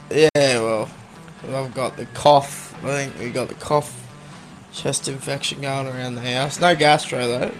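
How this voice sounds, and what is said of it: Croaky voice. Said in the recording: “Your voice is a bit croaky this morning.”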